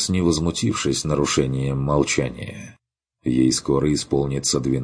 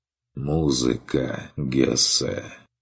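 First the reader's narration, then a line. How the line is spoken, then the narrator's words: Gloomy reply. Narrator (Russian): Мрачно отозвался Керн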